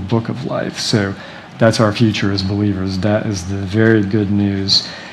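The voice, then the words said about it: Dry, strained voice. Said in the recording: “Sorry about my voice. It's kind of dry.”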